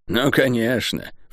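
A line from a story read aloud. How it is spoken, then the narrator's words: Snorted. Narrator (Russian): фыркнула Тиф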